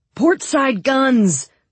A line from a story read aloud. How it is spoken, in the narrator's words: roared Sturmhand